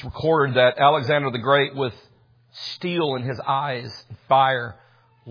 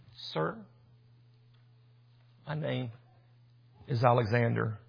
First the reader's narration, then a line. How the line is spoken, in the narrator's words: The young man quietly and meekly says